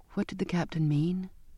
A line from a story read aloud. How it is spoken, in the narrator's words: asked, my voice small